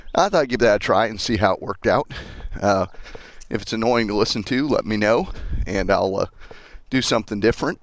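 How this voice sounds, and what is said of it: Slightly out of breath while talking. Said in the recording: “I sound a little out of breath, ... that's because I'm walking and talking”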